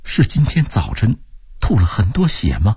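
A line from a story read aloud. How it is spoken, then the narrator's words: Strained, trembling question. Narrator (Chinese): 忍不住沉默了 艰难地颤声问道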